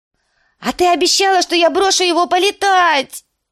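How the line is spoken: Shaking wail. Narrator (Russian): завопил лорд Орлиного гнезда, начиная трястись

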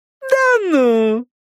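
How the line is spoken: Idiotic giggling. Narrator (Russian): идиотское хихиканье

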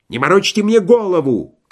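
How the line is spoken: Shout. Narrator (Russian): крикнул подпоручик

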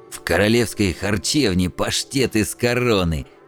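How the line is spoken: Old man's mocking snort. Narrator (Russian): издевательски фыркнул старик

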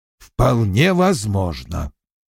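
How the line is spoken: Grumbling. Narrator (Russian): проворчал Вульф

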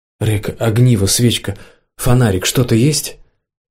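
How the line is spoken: Sigh. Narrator (Russian): Он вздохнул

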